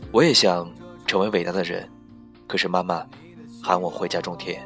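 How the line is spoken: Flat, indifferent. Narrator (Chinese): 他淡淡的说

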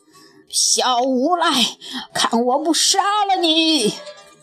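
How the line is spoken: Furious roar. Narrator (Chinese): 龙王气急败坏地吼道

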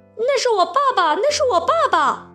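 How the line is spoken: Shocked shrill shout. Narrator (Chinese): 匹诺乔…大吃一惊，尖声高叫

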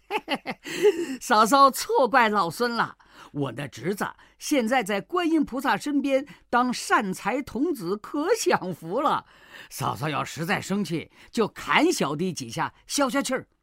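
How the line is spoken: Grinning, playful. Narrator (Chinese): 悟空笑嘻嘻地说

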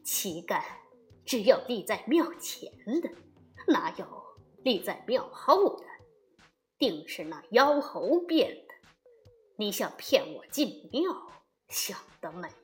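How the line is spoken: Cold sneering laugh. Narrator (Chinese): 二郎神不禁嘿嘿冷笑道

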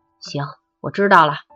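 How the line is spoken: Soft, decisive. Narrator (Chinese): 米妈妈当机立断，柔声说

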